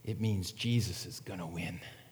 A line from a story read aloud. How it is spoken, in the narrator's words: the janitor in a whisper, he said